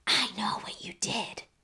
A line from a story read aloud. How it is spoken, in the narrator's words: whisper